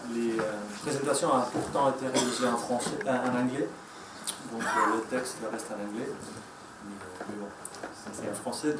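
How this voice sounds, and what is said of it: Strong Spanish accent in French. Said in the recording (French): “je vais m'exprimer en français, mais ce n'est pas ma langue maternelle. Donc je vous prie d'abord de m'excuser du fort accent espagnol.”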